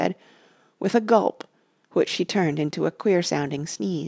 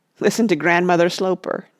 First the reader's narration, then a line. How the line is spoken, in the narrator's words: jeered Rush